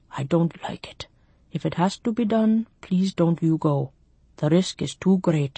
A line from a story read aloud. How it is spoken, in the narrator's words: He grunted, whispered